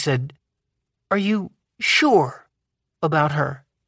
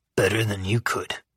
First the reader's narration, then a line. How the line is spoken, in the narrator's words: I growled